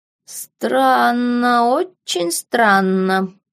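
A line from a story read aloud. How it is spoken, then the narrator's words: Drawling. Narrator (Russian): протянул доктор Клумб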